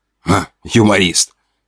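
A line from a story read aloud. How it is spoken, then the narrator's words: Snort. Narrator (Russian): Фыркнул тот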